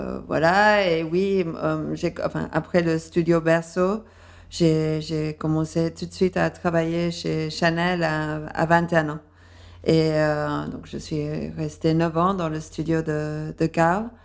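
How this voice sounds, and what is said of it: Slight English accent in French. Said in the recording (French): “j'ai un accent un peu indéfini, mais avec un léger accent anglais aussi. ... C'est très chic d'avoir un accent comme ça”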